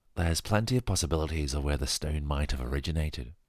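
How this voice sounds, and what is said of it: Put-on English accent. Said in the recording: “I'm going to try another English accent now”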